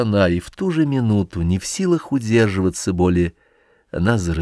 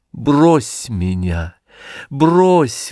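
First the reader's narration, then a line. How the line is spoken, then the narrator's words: Speaking through sobs. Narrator (Russian): выговаривала она между рыданиями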